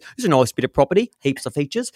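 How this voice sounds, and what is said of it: Exaggerated Australian broadcaster accent. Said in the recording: “they probably all have like broadcaster voices ... it all sounds like this ... It's sort of what you would think an Australian accent is”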